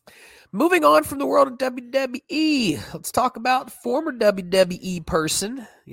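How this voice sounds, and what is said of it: Put-on Southern country accent. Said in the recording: “You like that? It's my country talk. ... speak country, like Southern”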